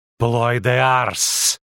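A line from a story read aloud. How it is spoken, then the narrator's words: Hissing. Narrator (Russian): прошипела она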